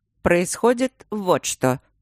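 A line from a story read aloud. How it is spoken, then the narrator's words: Dry, cold speech. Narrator (Russian): сухо заговорил Трот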